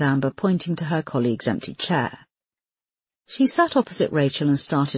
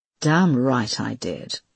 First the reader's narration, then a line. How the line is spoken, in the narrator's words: Amber replied coolly